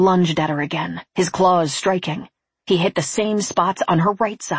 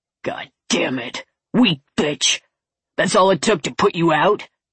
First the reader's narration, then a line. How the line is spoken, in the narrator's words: He snarled